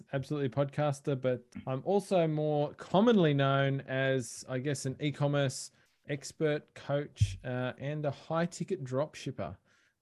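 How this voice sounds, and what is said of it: Australian accent. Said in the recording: “I am Australian, as people can probably tell from my accent”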